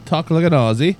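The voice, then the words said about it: Attempted Australian accent, sounds British. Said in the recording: “I want that accent ... You sound a little bit British there, though ... I'm terrible”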